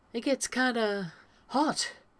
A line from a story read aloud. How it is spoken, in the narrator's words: Rodney says, and then clears his throat, swigs from his own beer to try and clear whatever made his voice catch